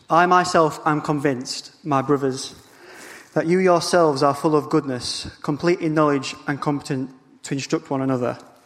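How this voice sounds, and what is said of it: Noticeable regional accent. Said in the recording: “apologies for the accent”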